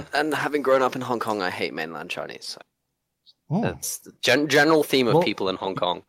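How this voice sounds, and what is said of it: Posh, refined Australian accent. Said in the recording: “Your Australian accent sounds kind of like more posh or refined ... So it's more British. Cultured.”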